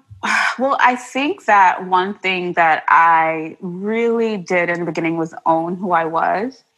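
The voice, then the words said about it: Mixed Trinidadian and New York accent. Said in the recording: “I had an accent, because I'm originally from Trinidad and Tobago... I definitely have a mixed match of an accent.”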